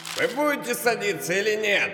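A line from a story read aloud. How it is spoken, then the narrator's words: Nervous shout. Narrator (Russian): крикнул нервничающий проводник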